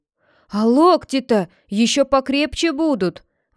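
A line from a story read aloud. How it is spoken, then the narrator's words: Exclamation after a punch. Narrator (Russian): воскликнул другой, получивший тычок в живот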